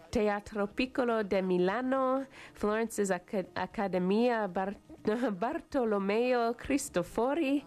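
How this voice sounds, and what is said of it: Put-on Italian accent. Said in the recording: “practicing my Italian accent”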